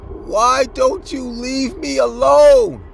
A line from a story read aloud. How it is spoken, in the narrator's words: The man then screamed and said